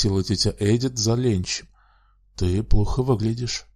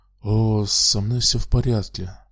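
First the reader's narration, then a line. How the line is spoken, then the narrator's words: Mumbling. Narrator (Russian): пробормотал Пит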